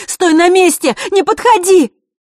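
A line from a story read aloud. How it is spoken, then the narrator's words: Shouted out, losing control. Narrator (Russian): Василиса не выдержала и выкрикнула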